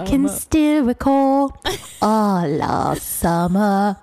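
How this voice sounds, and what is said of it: Colin Firth impression, singing. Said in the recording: “my Colin Firth impression, and I think it's a pretty good one.”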